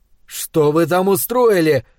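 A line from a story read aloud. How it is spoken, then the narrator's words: Yelling. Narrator (Russian): орал я на Соню и Легну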